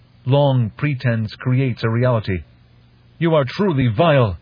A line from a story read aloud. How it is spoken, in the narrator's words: A captive fish speaker had stood in this very room and shouted at a Tlilazu master